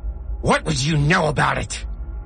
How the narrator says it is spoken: Goldie shrieked

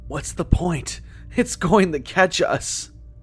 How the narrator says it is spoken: Jeff panted in reply

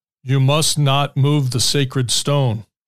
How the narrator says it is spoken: the man said in a deep, monotone voice that seemed to boom from his throat with little effort

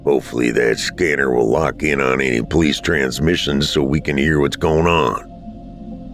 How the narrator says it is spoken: Dad muttered

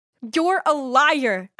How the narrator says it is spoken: I yelled

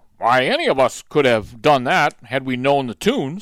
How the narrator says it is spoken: snorted another counselor

